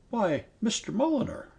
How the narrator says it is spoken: she exclaimed

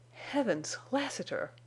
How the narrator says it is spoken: panted Venters, when he caught his breath

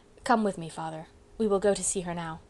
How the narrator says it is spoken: Eric only said quietly

